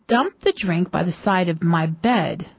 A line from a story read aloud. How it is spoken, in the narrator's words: said the prince